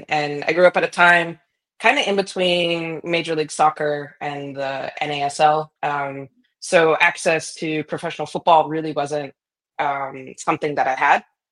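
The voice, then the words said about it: American accent. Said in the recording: “it's pretty obvious from my accent. I grew up in the States. I grew up in a small town outside of Boston”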